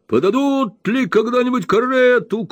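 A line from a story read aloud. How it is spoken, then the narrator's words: Shouting. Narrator (Russian): кричал Уордль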